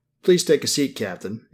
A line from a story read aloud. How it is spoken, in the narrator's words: Agent Moore said, her tone polite and businesslike